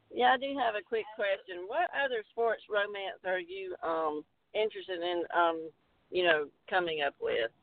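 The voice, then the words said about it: Southern US accent. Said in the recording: “Can't you just tell that southern accent? ... I can, absolutely. It's like it rang right a bell right immediately.”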